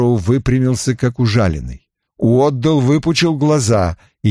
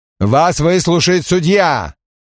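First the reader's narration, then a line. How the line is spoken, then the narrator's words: Shouted out. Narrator (Russian): выкрикнул Берру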